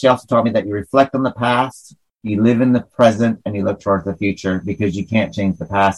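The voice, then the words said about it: Rural northern New York accent. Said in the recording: “my hick accent's coming out when I talk about my grandma ... the northern New York is coming out”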